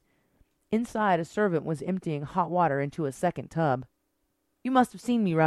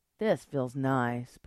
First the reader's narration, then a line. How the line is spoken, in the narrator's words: purred Destiny